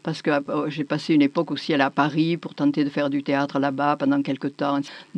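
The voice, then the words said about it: Southern French Midi accent. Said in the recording (French): “je parle avec l'accent du midi”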